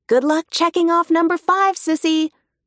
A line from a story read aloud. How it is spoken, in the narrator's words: calls loudly